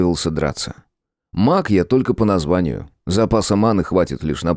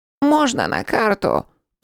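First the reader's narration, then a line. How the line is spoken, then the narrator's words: Rat squeaking. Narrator (Russian): пискнул крыс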